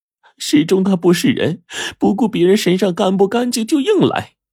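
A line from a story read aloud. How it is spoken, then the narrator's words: Wife weeping. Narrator (Chinese): 王时忠的妻子呀桂花哭泣着说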